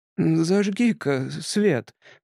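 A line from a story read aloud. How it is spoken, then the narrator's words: Eerie hiss. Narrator (Russian): потусторонним голосом прошипел Тримбл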